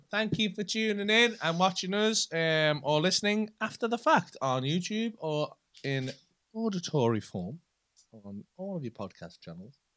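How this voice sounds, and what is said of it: Put-on posh voice. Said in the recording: “doing the posh voice that I done earlier”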